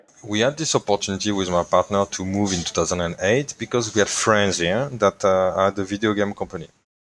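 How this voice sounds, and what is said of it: French accent. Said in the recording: “You're a Frenchman, as far as I can understand from your accent.”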